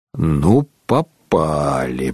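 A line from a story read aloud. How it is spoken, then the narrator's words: Grumbling. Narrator (Russian): проворчал Шарле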